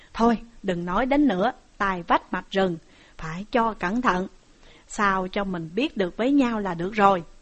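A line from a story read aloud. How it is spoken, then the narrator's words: Smiling. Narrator (Vietnamese): Ngô Dụng mỉm cười mà rằng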